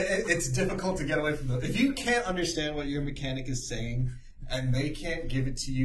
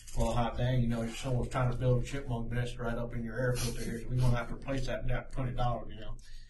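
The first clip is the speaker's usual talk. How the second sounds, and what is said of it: Put-on southern mechanic accent. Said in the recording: “you have a terrible southern accent ... That was all right, actually. That sounded like a real mechanic ... it's a mechanic southern accent, yes. Not a normal southern accent.”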